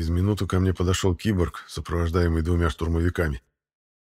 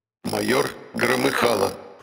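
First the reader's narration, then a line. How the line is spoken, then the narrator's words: Creaky metallic voice. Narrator (Russian): проскрипел металлический голос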